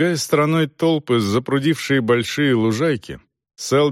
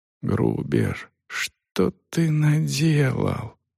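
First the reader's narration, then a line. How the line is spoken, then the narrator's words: Whispered question. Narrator (Russian): Селдон шепотом спросил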